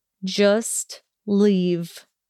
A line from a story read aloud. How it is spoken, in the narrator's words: he rasped out coldly